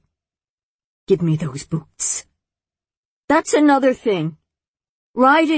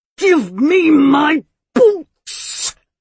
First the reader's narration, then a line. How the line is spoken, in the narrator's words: the head sister roared